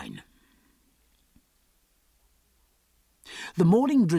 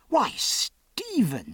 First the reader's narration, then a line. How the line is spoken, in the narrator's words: cried